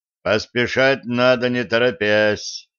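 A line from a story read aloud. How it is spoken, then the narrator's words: Deep drone. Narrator (Russian): прогудел Денис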